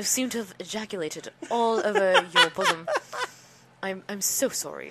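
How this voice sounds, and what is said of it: Put-on British accent. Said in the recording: “Is that your impression of a British guy?”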